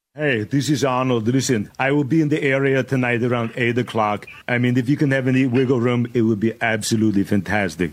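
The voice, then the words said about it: Arnold Schwarzenegger impression. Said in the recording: “does a perfect Arnold Schwarzenegger impression.”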